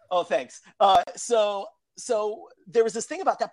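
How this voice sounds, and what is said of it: Usual voice. Nothing is said of it.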